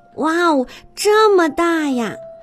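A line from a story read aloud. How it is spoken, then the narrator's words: Amazed exclamation. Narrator (Chinese): 小拖船……惊叹道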